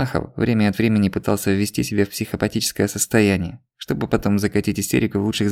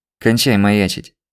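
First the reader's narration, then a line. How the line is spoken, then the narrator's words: Even commanding voice. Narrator (Russian): ровным голосом приказал Злобин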